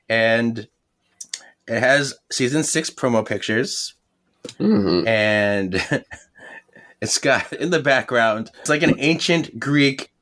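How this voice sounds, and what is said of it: Slightly off, sick-sounding voice. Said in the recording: “my voice is a little weird. I've been sick all morning or all week and my voice is recovering”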